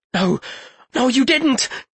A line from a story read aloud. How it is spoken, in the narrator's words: he stammered